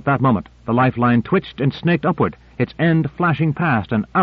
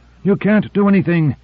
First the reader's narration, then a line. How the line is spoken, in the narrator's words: he panted